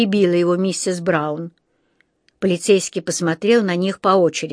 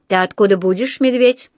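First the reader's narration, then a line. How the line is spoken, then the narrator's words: Stern question. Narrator (Russian): спросил он строго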